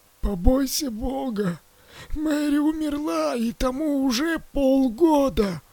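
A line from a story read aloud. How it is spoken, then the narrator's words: She-wolf, hoarse wheeze. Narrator (Russian): просипела волчица Люси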